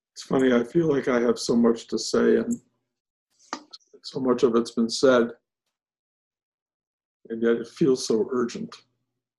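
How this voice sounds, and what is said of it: Ragged, slightly rough voice. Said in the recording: “I can feel my voice is sounding a little bit ragged”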